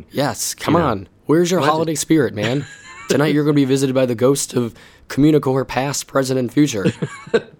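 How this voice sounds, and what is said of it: Congested voice from a cold. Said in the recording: “I have a cold, which is why I sound like this.”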